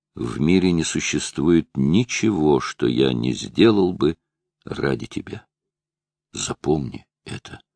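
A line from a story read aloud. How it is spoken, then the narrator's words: Quiet. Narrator (Russian): Он тихо сказал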